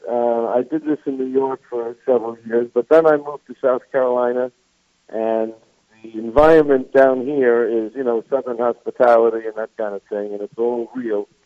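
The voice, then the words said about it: New York accent. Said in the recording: “I'm a New Yorker. Nobody can tell from my accent, I'm sure”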